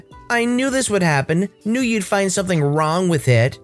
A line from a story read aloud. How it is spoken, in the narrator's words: in a very snotty voice